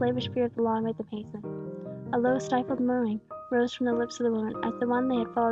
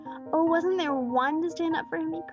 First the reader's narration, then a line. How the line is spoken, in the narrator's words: cried with clasped hands and staring eyes